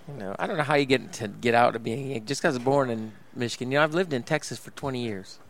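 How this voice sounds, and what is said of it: Northern US Yankee accent. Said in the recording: “You still got the accent, though. Your accent never left.”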